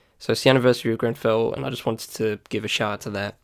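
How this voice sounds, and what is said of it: Congested, slightly nasal voice. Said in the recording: “my nose has been a bit bunged up. That's why I sound a bit nasally.”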